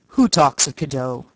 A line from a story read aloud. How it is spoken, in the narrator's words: he said gruffly